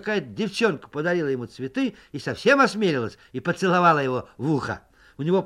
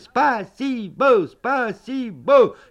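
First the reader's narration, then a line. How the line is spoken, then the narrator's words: Group shouting. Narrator (Russian): И мы закричали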